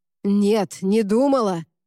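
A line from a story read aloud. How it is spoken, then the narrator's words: Barked. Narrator (Russian): рявкнул он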